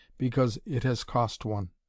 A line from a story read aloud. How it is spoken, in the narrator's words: he said, his voice trembling slightly